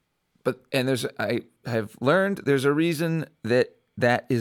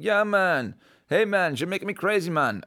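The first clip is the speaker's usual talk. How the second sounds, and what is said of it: Put-on Jamaican accent. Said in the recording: “the Jamaican accent ... People, do the Jamaican accent,”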